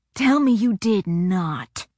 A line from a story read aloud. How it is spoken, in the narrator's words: he growled